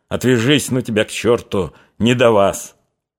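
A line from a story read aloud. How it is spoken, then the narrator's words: Stern grumble. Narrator (Russian): сурово буркнул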